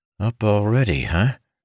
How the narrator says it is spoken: Ilden sighed

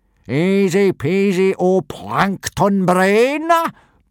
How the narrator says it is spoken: boomed Gobber, very pleased with himself

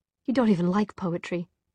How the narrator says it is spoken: Tessa said, her voice catching on a half-laugh of relief

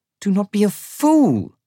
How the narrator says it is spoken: Rojva snaps

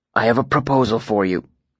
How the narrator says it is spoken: I said quietly

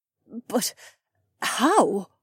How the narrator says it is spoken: Cat stammered

